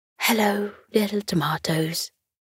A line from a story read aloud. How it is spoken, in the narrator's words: he said softly